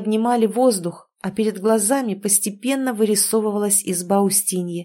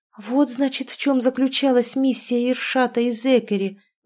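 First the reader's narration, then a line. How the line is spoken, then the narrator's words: Breathed out. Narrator (Russian): выдохнула Тоня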